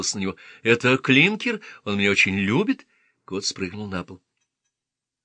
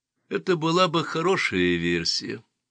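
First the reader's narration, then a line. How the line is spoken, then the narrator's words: Flat emotionless voice. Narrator (Russian): произнес Мейсон бесстрастным голосом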